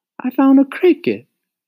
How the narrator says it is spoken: Mario exclaimed

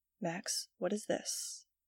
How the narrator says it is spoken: She asked gently

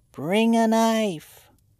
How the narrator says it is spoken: he heard the call plainly, but in a very thin voice

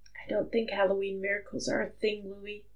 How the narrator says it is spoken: Harry whispered into his ear

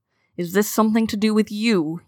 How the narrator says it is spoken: He growled

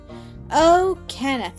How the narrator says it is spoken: she cried

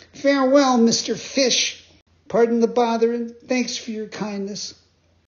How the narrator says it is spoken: cried, scared to death

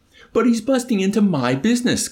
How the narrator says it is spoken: Colonel Shyskov cried

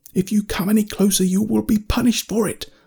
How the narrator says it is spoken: I yelled

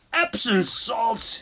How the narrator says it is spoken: groaned

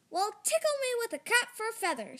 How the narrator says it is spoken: she cried

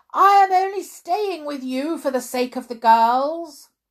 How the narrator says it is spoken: she heard her mother shout

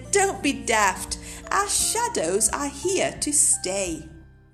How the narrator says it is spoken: Day Monkey laughed and said

